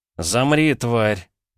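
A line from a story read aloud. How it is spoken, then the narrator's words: Through clenched teeth. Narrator (Russian): процедил Петя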